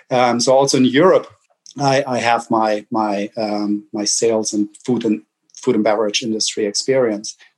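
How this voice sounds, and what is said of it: German accent. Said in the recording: “You hear my accent, right? So I'm German. I can't hide it.”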